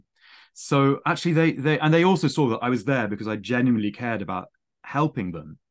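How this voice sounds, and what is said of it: Plummy posh accent. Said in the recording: “my plummy accent ... I got a bit of ribbing for my accent”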